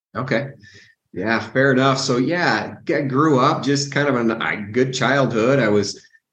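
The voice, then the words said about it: American accent. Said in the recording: “people can probably gauge from your accent. So you're US based.”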